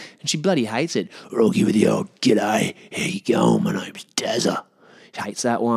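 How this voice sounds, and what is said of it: Usual voice. Nothing is said of it.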